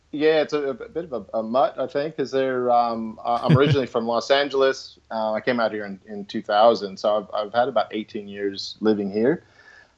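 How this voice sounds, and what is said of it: American accent with slight Australian. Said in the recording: “not sure if my accent is coming through or not, if it's American or Australian ... you've taken on a little bit of the Australian, I would say. Yeah, but it's kind of in between.”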